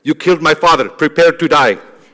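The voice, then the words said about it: Put-on movie accent. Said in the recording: “I'm going to get the accent. This is going to be a good accent.”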